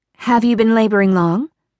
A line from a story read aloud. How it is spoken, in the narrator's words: Mary asked